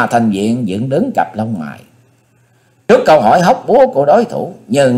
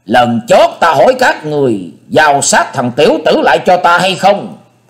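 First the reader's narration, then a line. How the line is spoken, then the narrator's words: Shouting. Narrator (Vietnamese): Tí Ma Thanh Diện hét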